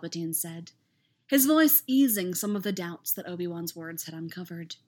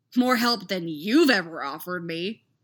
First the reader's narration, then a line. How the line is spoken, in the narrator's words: he snapped